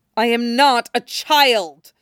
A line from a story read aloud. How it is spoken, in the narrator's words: Yagura snarls